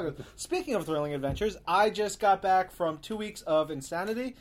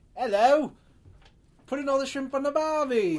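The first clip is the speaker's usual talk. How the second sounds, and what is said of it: Put-on English accent. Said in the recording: “your English accent includes shrimp on the Barbie ... that's not just his English accent, that's pretty much any accent”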